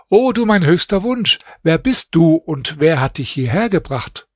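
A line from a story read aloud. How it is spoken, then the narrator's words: Calling out to her. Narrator (German): rief ihr zu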